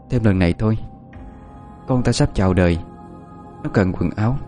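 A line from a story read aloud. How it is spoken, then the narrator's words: Soft pleading. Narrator (Vietnamese): cô khẽ mở lời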